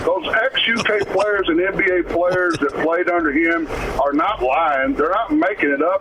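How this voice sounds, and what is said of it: Louisville South End accent. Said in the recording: “that's a South End dude if I ever heard one. I know that accent. I know that accent very well.”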